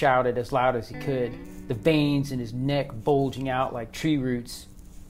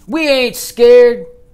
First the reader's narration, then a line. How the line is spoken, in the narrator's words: the team yelled